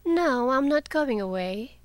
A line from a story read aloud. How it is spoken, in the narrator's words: she replied lazily